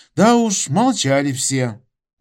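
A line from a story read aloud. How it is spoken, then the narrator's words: Sighing. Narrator (Russian): вздохнул Макарыч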